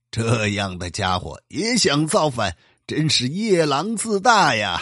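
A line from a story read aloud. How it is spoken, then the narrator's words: Laughing heartily. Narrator (Chinese): 乾隆帝大笑着说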